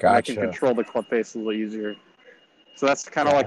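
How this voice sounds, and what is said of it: Slightly out of breath. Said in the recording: “I'm like a little out of breath.”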